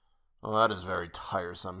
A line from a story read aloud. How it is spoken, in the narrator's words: muttered